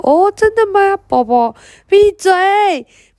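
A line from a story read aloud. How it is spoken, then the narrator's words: Roaring. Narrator (Chinese): 佩特娜拉吼了一声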